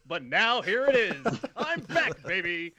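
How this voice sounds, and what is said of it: Booming radio announcer voice. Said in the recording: “my radio voice”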